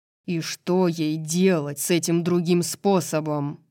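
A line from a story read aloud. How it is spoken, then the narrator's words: Growl. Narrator (Russian): прорычал Хант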